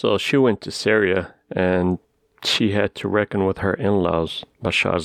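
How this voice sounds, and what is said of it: Usual voice. Nothing is said of it.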